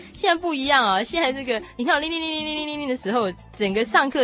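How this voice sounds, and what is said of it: Usual voice. Nothing is said of it.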